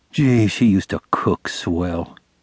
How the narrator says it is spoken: murmured regretfully

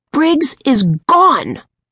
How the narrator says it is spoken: Josh shouted into the phone

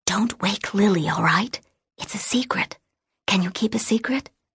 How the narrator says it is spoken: Jessie whispered

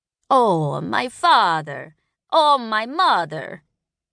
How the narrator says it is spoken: Lulath intoned in slaanth

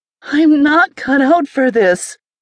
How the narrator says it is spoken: Thermopolis cried

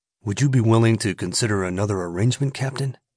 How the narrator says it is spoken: Laramie asked calmly

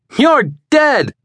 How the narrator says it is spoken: Lion shouted

